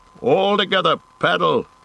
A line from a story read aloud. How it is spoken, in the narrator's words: shouted Boromir